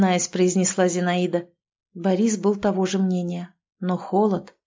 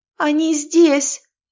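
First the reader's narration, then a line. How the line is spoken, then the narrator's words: Cracking voice, nearly screaming. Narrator (Russian): ломким голосом проговорила Лизавета, похоже, едва сдерживаясь, чтобы не закричать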